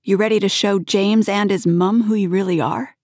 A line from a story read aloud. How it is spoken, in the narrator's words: he shouted